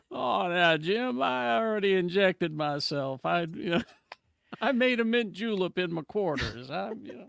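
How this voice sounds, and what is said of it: Put-on Southern accent. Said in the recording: “Got my Southern accent back again.”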